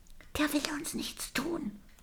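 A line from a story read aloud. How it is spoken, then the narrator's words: Whisper. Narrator (German): wispert Daisy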